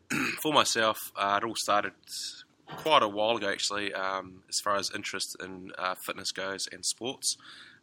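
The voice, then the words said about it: New Zealand accent. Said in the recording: “Just once again from New Zealand, so I do apologise for my accent.”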